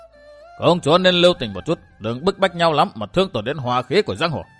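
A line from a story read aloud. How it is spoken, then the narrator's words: Old man's raised call. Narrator (Vietnamese): Vạn Cực Đế Quân, lão cao giọng gọi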